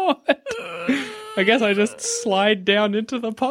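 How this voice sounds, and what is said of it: Usual voice. Nothing is said of it.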